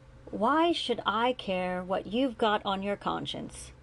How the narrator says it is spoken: he said, letting his voice raise a bit

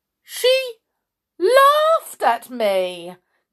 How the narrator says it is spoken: cried the king

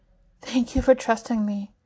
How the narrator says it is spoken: she murmurs

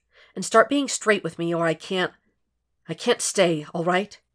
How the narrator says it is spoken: Jeff said tightly

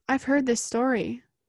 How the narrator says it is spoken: said Sonara

